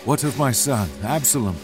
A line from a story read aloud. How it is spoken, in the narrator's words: David asked anxiously